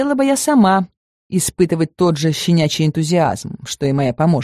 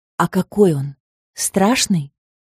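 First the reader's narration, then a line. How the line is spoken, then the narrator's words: Feigned uncertain, frightened voice. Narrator (Russian): Я постаралась, чтобы мой голос звучал неуверенно, испуганно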